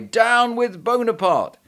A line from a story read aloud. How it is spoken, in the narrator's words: they cried